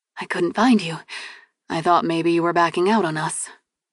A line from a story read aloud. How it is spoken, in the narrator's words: said quietly